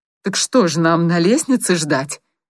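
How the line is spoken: Angry question. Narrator (Russian): сердито спросила сестра

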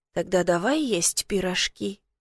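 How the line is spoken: Whisper into hair. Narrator (Russian): прошептал мне в волосы

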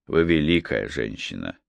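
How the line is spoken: Calm. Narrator (Russian): спокойно произнес

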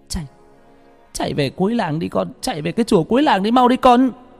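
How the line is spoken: Terrified shout. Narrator (Vietnamese): mẹ tôi mắt không còn một giọt máu, la lên

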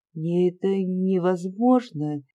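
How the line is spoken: Sad voice. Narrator (Russian): печальным голосом отвечала Ольга

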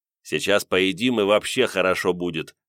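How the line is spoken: Amused snort. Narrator (Russian): хмыкнул я

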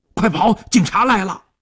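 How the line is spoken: Shouting. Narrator (Chinese): 一边喊一边飞快地窜向了后巷

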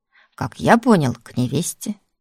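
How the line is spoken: Chuckling. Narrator (Russian): хохотнула Алёшка

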